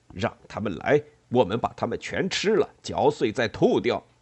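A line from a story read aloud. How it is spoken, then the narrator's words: Furious roar. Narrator (Chinese): 爱因斯凯迪大吼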